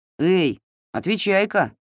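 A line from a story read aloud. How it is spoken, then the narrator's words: Young lad shouting. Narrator (Russian): закричал снова паренек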